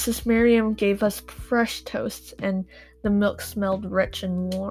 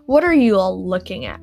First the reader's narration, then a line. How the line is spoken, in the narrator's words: she snapped